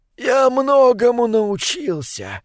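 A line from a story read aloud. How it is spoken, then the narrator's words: Hoarse rasp. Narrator (Russian): прохрипел Мортарион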